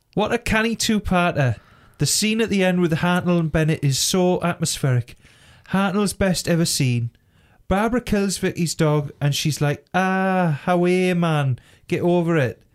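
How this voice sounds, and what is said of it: Put-on Geordie accent. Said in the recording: “Shall I say it in a Geordie accent?”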